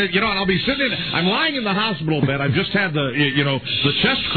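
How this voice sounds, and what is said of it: Usual voice. Nothing is said of it.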